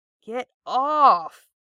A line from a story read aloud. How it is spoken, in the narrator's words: he groans, although he can't quite muster the necessary annoyance to put any real force behind the words